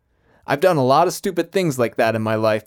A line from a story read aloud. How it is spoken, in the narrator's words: Miller said